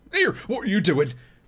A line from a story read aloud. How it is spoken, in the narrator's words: cried Sam, his suspicions coming back